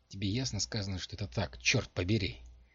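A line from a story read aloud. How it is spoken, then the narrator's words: Grim confirmation. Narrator (Russian): мрачно подтвердила Дженси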